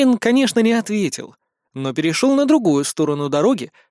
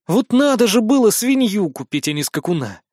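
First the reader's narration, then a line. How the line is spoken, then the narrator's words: Grumbling. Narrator (Russian): пробурчал я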